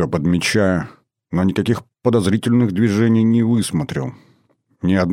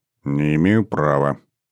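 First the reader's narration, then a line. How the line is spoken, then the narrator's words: Muttered. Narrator (Russian): пробормотала Скво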